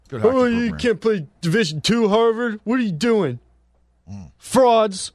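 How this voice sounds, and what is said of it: Imitates another person's voice. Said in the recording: “That was my impersonation of Pete.”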